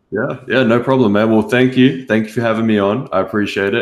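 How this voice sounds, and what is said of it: Australian accent. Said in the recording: “if you can't tell already by my accent, I'm obviously from Australia”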